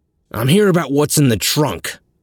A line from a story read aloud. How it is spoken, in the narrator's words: nearly barked